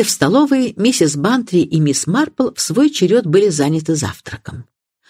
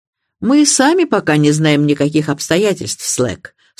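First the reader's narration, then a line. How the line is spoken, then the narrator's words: Dry remark. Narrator (Russian): сухо заметил Мелчет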